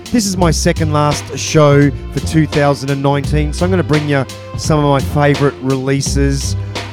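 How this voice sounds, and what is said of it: Sick, under-the-weather voice. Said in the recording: “excuse my voice, I have a little bit of man flu”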